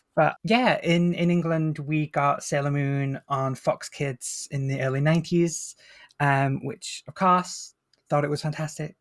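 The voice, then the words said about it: Northern English accent. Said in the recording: “I'm British, if that's not really obvious from my accent... I'm Northern English, so I don't have the kind of posh BBC pronunciation. I have the more rough and tumble Northern accent”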